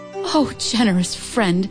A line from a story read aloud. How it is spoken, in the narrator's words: Qin Yumin cried